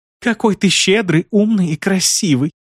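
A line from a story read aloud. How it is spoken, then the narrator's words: Tender singsong. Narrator (Russian): Ласково запела сдоба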